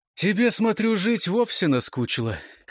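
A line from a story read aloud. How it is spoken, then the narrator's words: Weary. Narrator (Russian): как-то устало продолжал гусляр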